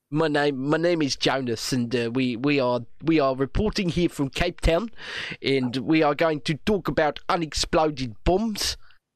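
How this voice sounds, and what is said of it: Put-on South African accent. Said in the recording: “my South African accent ... Yeah, I did. It was good. ... That's one I can actually do quite well.”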